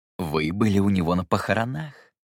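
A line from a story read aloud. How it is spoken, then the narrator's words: Ingratiating tone. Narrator (Russian): вкрадчиво произнес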